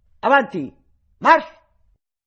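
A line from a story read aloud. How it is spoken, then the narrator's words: Shouted. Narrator (Italian): Pastor gridò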